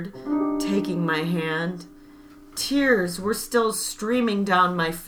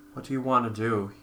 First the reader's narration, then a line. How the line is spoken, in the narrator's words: He asked calmly